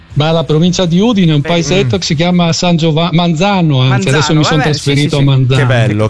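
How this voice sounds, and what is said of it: Friulian Italian regional accent. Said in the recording (Italian): “Se lo percepite dall'accento è un friulano lui.”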